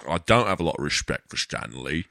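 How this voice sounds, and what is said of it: Character voice with slurred shushing S's. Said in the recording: “his impression. You go, shh. Everything is like, all the S's are, shh ... you have to constantly kind of purse your lips to speak like that ... this constant scowl”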